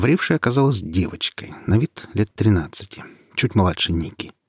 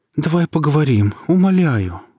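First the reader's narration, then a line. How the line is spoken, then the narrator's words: Pleading. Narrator (Russian): взмолилась Ника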